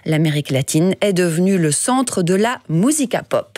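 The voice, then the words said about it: Slight put-on accent. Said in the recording (French): “avec un petit accent”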